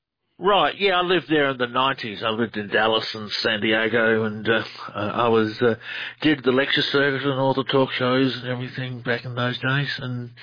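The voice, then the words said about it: Australian accent. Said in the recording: “Australian researcher. Love the accent ... You have a great one.”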